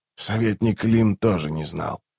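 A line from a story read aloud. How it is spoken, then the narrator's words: Quiet. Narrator (Russian): тихо сказал Раллик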